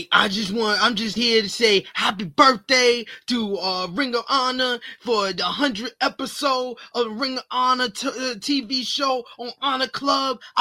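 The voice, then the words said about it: Impression of Mark Briscoe. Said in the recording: “Mark Briscoe, I mean, you do the best impression of him.”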